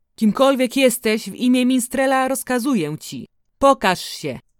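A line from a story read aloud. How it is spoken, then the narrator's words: Shouted. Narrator (Polish): krzyknął mistrz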